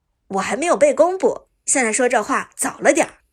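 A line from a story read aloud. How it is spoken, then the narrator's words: Hearty laugh. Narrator (Chinese): 苏哲哈哈一笑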